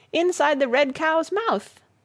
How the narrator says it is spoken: he shouted

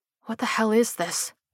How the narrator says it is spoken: she muttered

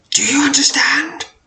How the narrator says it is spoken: cries, a voice adopting a frantic tone

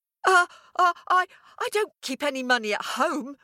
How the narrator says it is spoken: stammered the farmer

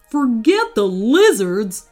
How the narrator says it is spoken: snapped Wayne

